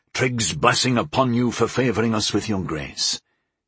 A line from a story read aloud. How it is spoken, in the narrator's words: Zagor said, his voice hushed in reverence